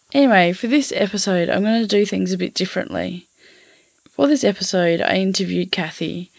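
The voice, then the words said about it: Scratchy, husky voice. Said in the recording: “my voice is a bit scratchy today ... the husky voice thing”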